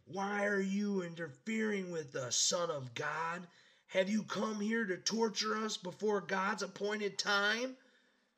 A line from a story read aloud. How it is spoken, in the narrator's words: They began screaming at him